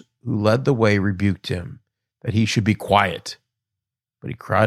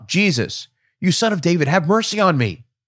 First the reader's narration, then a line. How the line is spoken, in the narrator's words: He cried out